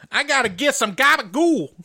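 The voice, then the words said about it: Over-the-top New York Italian accent. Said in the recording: “I can't even do an Italian accent ... the most over the top ... New York Italian”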